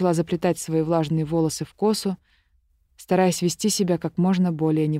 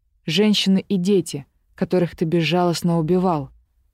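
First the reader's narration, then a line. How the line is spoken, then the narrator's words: Barked. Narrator (Russian): рявкнула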